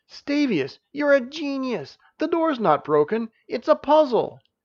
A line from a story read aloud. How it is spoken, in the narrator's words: Janice, however, jumped up and exclaimed